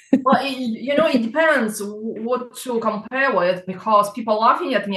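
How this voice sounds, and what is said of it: Russian accent. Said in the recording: “is it a Russian accent I can hear?”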